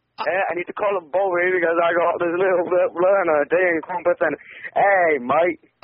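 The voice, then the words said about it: Put-on Australian accent. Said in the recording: “I don't like the Australian accent”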